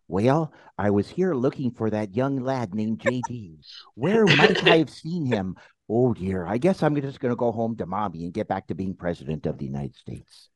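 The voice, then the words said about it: Deliberately bad imitation of another person's voice. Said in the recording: “my worst impression.”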